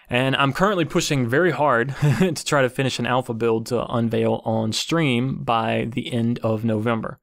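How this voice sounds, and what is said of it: Tired-sounding voice. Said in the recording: “I sound very tired, I am very tired because I've been busting ass”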